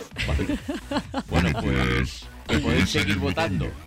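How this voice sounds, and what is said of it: Deep, strong Darth Vader-like voice. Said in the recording (Spanish): “Me ha salido esta voz... Me sale una voz un poco, ¿no? Fuertecita... Sí, un poco Darth Vader.”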